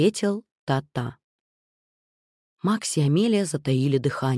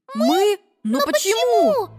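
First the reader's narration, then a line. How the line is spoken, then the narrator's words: Mice exclaiming in chorus. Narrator (Russian): воскликнули мышата хором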